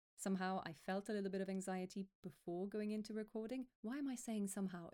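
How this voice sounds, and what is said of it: Higher-pitched, anxious voice. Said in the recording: “my voice is a lot higher because my breath is quite high right now”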